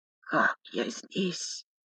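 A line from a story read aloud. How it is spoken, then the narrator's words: Hoarse, dry voice. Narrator (Russian): Его хриплый сухой голос разбил замерзшую тишину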